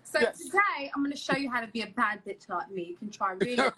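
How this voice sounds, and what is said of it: Put-on British accent. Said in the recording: “Talk like you British... talk British”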